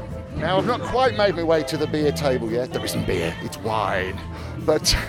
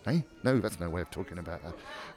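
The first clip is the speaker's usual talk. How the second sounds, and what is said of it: Whispering. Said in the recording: “I'm whispering to myself”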